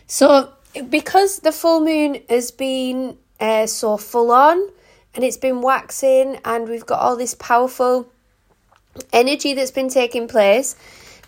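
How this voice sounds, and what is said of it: Strained, failing voice. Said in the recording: “I am actually losing my voice.”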